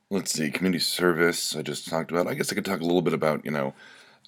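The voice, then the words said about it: Gravelly, slightly rough voice. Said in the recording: “my voice is a little gravelly. I just sneezed.”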